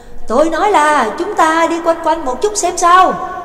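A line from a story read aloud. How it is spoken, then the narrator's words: Shouting close to ear. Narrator (Vietnamese): Nhạc Dương ghé miệng sát tai của Trắc Mộc Cường Ba hét lên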